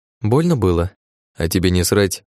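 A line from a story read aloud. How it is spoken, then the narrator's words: Sharp. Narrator (Russian): Резко ответил Дум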